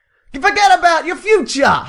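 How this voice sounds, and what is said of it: Put-on New York accent. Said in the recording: “Can you do it in your New York accent?”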